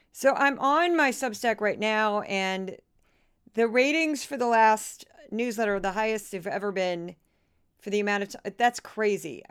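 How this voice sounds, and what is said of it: Tired-sounding voice. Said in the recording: “you can hear it in my voice. I'm pretty tired.”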